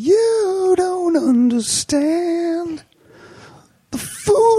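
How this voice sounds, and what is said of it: Usual voice. Nothing is said of it.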